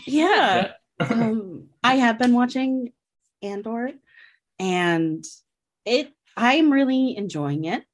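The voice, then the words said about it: Calm NPR radio-host voice. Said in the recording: “Still doing the NPR voice.”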